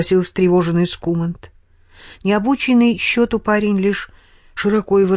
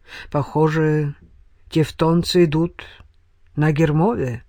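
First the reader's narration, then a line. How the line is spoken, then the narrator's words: Gloomy reply. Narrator (Russian): мрачно ответил Вайделот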